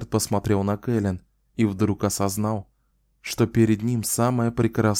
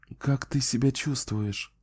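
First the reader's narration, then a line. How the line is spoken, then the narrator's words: Gentle, tender voice. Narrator (Russian): Ее голос звучал ласково и нежно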